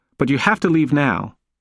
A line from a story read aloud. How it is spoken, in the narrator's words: she said as firmly as she could muster